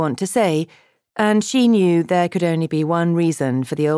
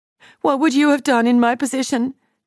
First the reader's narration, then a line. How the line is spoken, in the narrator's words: She pleaded